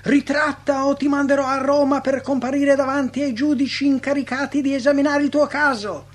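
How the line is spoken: Furious shouting. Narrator (Italian): il legato perse il controllo e gridò furibondo

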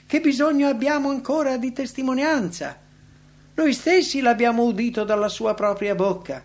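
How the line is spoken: Exclaimed. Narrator (Italian): essi esclamarono

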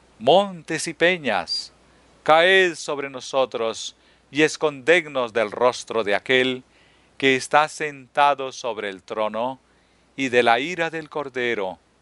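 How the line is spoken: Exclaimed. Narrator (Spanish): exclamen

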